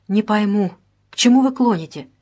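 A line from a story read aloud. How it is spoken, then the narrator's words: Timid remark. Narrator (Russian): робко заметила Марина Сигизмундовна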